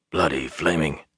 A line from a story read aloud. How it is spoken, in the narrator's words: Una whispered